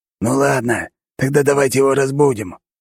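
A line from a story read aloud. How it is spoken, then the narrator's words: Hoarse. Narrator (Russian): хрипло произнес пятый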